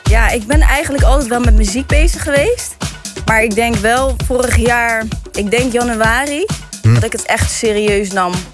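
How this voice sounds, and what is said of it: Rotterdam Dutch accent. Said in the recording (Dutch): “Rotterdam. Kan je het horen? ... Het is een lekker accent.”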